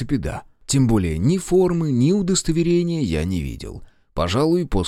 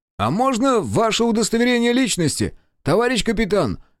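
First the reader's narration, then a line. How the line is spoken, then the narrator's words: Shouted reply. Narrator (Russian): крикнул в ответ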